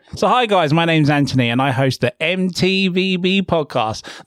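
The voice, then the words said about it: Announcer-style radio voice. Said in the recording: “Could do my radio voice? ... You get to do your radio ... Voice. Let's hear it.”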